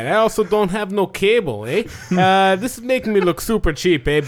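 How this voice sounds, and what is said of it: Put-on Canadian Ottawa accent. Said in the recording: “Canadian. ... want to hear an Ottawa accent.”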